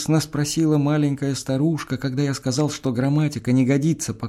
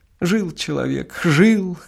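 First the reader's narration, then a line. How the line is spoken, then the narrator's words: Sobbing speech. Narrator (Russian): говорила она, всхлипывая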